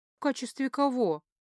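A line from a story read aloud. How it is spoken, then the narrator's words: Grim. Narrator (Russian): мрачно уточнила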